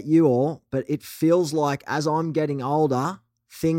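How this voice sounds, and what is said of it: Usual voice. Nothing is said of it.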